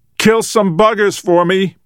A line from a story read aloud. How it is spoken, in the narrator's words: Peter shouted